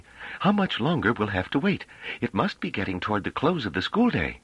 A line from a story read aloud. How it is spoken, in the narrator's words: said Pellerat uneasily